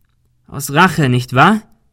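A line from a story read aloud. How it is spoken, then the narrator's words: Called out. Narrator (German): rief Ben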